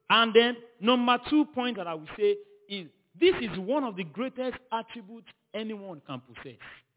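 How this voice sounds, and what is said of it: Non-native English accent. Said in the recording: “Don't mind my English ... they said I have accent. So, don't mind my accent.”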